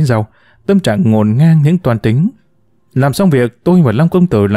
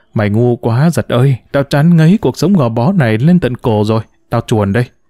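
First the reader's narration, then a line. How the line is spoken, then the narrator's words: Muttered. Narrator (Vietnamese): Tôi lẩm bẩm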